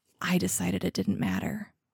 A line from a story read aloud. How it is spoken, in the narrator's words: I whispered